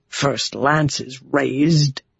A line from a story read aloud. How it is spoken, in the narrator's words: Bashir said under his breath